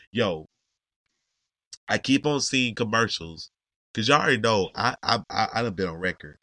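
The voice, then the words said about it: Hoarse, nearly lost voice. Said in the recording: “I don't know if I'm yelling because my voice is completely gone. So I think I'm talking at a normal rate, but I don't know if I'm yelling.”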